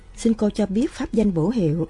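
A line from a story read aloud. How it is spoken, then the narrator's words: Smiling monk. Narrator (Vietnamese): thiền sư mỉm cười nói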